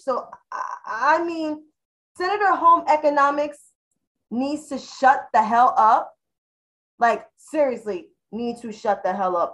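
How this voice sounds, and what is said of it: New York City accent. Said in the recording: “I got an accent. I'm from New York City.”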